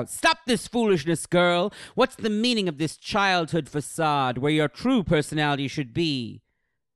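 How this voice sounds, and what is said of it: Shouting angry character voice. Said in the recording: “shouts ... Why are you yelling?”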